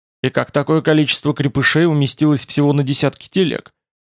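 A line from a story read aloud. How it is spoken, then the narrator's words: Skeptical grunt. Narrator (Russian): Тмор хмыкнул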